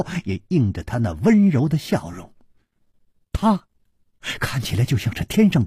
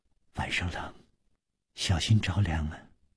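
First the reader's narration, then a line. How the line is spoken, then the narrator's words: Gentle, tender. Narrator (Chinese): 柔声说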